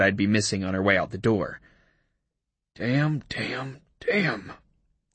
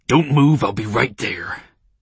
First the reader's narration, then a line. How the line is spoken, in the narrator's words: he growled